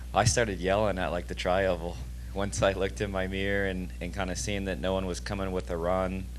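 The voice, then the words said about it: Hoarse, worn-out voice. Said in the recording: “I just started yelling. And that's why my voice is still gone.”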